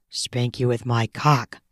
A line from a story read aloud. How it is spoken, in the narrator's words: I mutter